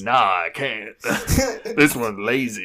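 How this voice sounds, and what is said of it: Put-on Southern US accent. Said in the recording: “did that accent ... I did that because he looks like he's from the South.”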